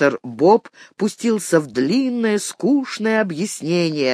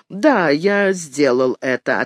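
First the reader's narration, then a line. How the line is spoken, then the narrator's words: Plain. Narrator (Russian): ответил эксперт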